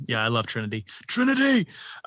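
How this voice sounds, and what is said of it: Imitates another person's voice. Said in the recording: “That was my Keanu Reeves impression.”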